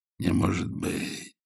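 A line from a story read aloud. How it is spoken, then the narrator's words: Quiet. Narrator (Russian): проговорил тихо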